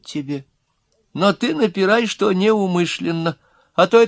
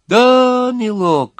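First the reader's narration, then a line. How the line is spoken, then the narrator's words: Sympathetic drawl, small old man. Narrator (Russian): сочувственно протянул маленький сухонький человечек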